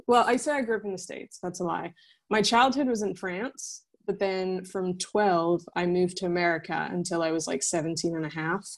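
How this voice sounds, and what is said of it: American English accent. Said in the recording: “my accent it because it was like the first kind of english that i learned the american accent ... stuck”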